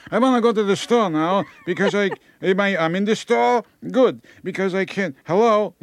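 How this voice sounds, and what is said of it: Put-on elderly Jewish accent. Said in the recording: “they have a Jewish accent ... they get a Jewish accent.”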